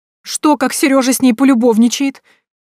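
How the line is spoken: Sobbing. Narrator (Russian): Минадора даже всхлипнула от такого предположения

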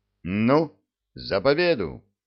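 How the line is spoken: Plain. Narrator (Russian): сказал командир

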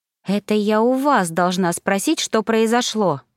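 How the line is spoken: Snapping retort. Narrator (Russian): огрызнулась я

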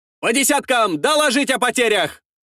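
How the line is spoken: Shouted. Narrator (Russian): прокричал Елисей

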